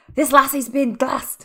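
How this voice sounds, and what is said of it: Imitates a film character's accent. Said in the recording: “I don't know why I keep trying to do the accent.”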